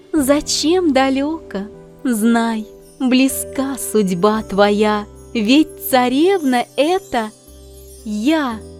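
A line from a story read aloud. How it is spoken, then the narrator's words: With a deep sigh. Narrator (Russian): Лебедь, вздохнув глубоко, молвила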